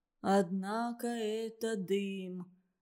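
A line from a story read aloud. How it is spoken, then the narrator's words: Melancholy mumble. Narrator (Russian): бормотал он тоскливо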